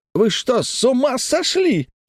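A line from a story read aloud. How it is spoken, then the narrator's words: Shrieking. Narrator (Russian): взвизгнул Дженаро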